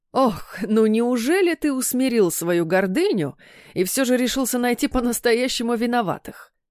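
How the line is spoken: Father-in-law laughing heartily. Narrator (Russian): расхохотался тесть

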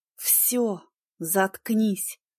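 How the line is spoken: Regretful irritated hiss. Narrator (Russian): зашипела я, пожалев, что вообще завела эту тему

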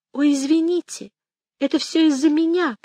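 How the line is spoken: Squeaked. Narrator (Russian): пропищала она

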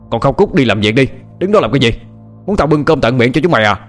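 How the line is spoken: Old man's harsh shout. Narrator (Vietnamese): lão Hoang lại quát lên

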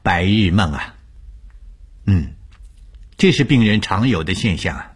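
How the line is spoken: Faint calm smile. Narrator (Chinese): 吴医生淡淡一笑，对我说

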